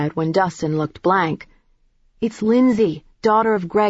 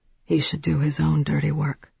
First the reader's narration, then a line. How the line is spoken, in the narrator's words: Belle said quite calmly